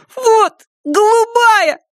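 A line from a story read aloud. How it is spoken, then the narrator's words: Desperate voice, man. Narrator (Russian): сказал он таким отчаянным голосом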